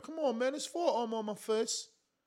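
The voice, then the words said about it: Imitates a boxer in British accent. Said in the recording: “Nice British accent.”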